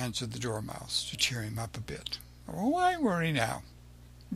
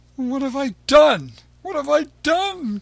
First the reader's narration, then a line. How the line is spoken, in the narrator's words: cried Pinocchio